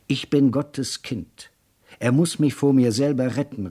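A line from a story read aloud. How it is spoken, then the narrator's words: Anguished cry. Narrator (German): rief er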